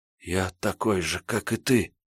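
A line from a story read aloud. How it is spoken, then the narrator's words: Quiet whisper over siren. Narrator (Russian): тихо прошептал он, боясь, что так и не прекратившийся вой сирены заглушит его слова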